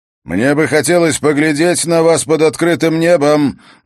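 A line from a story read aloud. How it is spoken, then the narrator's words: Booming shout. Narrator (Russian): зычно выкрикнул следопыт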